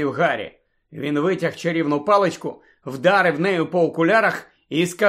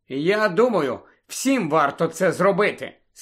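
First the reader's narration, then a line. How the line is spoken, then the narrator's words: Plain. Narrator (Ukrainian): сказала Анджеліна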